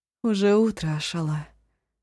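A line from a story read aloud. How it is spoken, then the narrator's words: Tired. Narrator (Russian): устало сказала Жанаина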